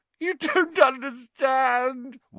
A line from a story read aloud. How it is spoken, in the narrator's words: whined Pettigrew